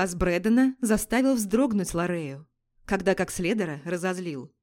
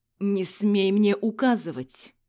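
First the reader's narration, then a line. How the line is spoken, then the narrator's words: Growling voice. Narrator (Russian): Рычащим голосом произнес он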